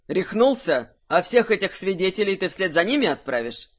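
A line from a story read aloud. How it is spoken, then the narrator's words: Barked. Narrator (Russian): Рявкнул Кирсан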